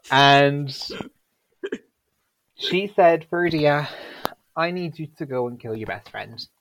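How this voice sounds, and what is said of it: Scottish-sounding accent. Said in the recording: “my accent is just so Scottish, apparently”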